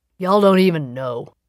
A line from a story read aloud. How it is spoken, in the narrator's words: muttered